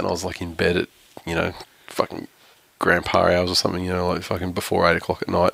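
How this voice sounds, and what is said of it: Voice sounds sick. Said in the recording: “as you can tell from my voice, I oh, was sick as fuck”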